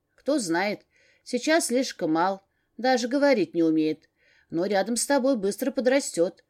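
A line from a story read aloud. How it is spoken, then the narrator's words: Plain. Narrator (Russian): ответила птичка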